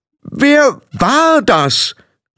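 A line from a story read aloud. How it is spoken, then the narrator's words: Called out again. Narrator (German): rief sie noch einmal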